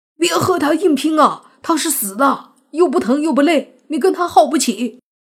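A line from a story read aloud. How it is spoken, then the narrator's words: Urgent shout. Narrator (Chinese): 泥巴对莫凡大喊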